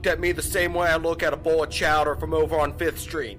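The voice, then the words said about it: Goofy exaggerated Boston accent. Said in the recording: “This goofy ass Boston accent is cracking me up”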